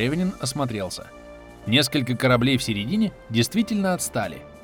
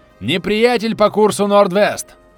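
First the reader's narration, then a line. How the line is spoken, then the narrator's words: Shouted. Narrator (Russian): закричал Марсовый вперед смотрящий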